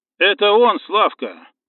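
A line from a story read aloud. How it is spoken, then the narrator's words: Muffled boom through a mask. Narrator (Russian): прогудел Виталий сквозь кислородную маску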